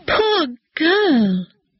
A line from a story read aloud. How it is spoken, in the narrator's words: cried the old woman